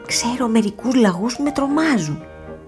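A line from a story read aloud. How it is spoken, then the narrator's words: Whisper. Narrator (Greek): ψιθύρισε ο Τόμ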